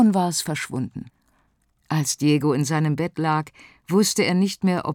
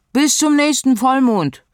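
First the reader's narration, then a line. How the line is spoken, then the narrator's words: Calling out. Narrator (German): rief es Diego noch zu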